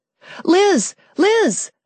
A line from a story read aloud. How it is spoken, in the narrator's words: shouted